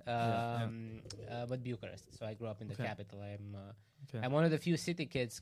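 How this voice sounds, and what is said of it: Romanian accent in English. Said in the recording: “Romania as well. If you can tell by the accent.”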